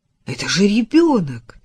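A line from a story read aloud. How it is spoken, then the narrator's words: Incredulous exclamation. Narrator (Russian): не веря своим глазам, воскликнул Адам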